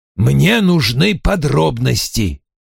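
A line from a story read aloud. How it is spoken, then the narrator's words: Curt, irritated. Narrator (Russian): раздраженно бросил Вульф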